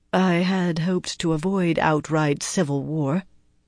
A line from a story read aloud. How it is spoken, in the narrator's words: she murmured, as if to herself